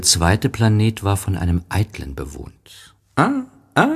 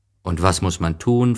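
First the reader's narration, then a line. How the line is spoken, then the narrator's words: Plain. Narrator (German): fragte er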